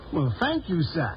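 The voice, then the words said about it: Southern US accent. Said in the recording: “What is this southern accent?”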